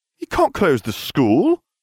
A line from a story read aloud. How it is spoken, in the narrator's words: I exclaimed, the Weasley echoing me